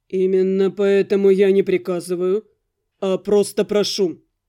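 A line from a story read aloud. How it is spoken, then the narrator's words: Calm, respectful, meaningful. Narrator (Russian): Спокойно, даже почтительно откликнулся Виконт, после чего многозначительно добавил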